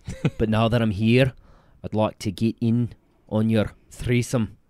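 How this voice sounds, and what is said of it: Put-on Scottish accent. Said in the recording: “I can do Scottish pretty damn good. ... Not bad.”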